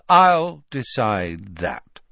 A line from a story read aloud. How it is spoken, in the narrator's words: said Malfoy